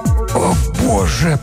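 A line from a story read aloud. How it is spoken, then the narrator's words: Hoarse wheeze. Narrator (Russian): прохрипел Блаувельд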